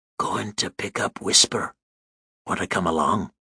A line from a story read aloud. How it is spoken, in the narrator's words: He put his mouth close to my ear and whispered